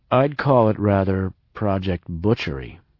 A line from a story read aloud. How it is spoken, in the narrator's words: I said slowly